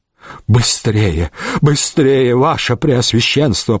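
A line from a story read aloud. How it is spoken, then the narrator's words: Urging in trembling voice. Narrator (Russian): подгонял дрожащим голосом Вавженец фон Рограу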